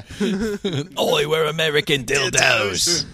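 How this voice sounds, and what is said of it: Put-on British accent. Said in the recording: “We all have to sing in a British accent.”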